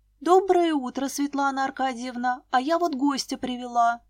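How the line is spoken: Joyful. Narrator (Russian): радостно сказала я

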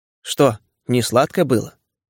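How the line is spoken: Cold question. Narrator (Russian): холодно спросила Аграфена Павловна

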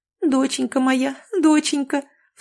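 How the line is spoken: Mother's muffled tearful sob. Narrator (Russian): всхлипнула матушка, уткнувшись мокрым от слез лицом в плечо маленькой Аленки

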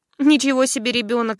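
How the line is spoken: Laughing. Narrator (Russian): рассмеялся Евсей

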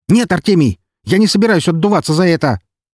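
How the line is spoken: Near-hysterical shout. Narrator (Russian): чуть ли не в истерике выкрикнул он

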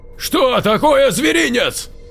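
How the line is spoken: Yelling. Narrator (Russian): Заорал Дмитрий

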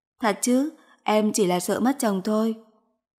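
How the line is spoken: Amused, suppressing laughter. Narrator (Vietnamese): vội vàng cúi người nằm bên ngực anh mà nói

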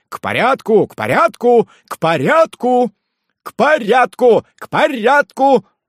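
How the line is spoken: Louder group shouting. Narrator (Russian): закричали еще громче Ларукет и его друзья

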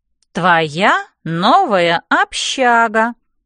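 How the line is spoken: Slow repetition. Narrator (Russian): медленно повторяет она

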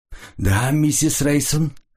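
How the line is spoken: Muffled, trembling voice. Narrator (Russian): глухим дрожащим голосом произнес он

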